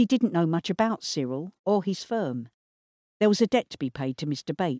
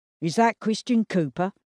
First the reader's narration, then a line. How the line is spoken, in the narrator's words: asked Frank